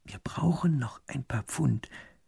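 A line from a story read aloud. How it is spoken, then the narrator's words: Whispered. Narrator (German): flüstert der zweite Minister dem ersten zu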